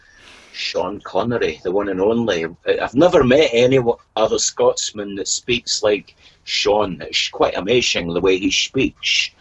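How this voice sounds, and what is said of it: Poor impression of a Scottish voice. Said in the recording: “You can hear by the poor impersonation, it's not my normal job”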